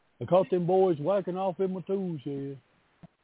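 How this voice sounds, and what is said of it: Cartoon character voice impression. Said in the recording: “good Hank Hill impression? ... No, that was a good impression.”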